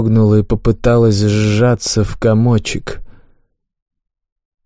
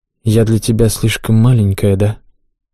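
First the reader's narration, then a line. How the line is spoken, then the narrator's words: Quiet, almost inaudible sigh. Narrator (Russian): Вздохнув тихо, почти неслышно спросила она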